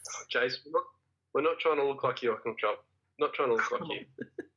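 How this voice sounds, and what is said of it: Slow Australian accent. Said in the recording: “the slowest Australian accent that has ever graced the airwaves ... slow Australian accent”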